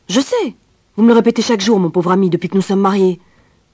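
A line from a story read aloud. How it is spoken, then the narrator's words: Curt retort. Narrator (French): elle répliquait sèchement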